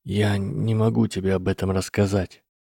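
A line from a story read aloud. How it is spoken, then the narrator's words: Barely audible whisper. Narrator (Russian): еле слышным шепотом ответил Гарри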